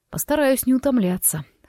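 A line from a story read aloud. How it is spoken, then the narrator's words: Amused snort. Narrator (Russian): хмыкнул Форест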